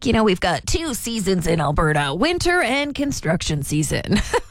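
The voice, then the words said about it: Imitates another person's voice. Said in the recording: “That's my impression of my dad.”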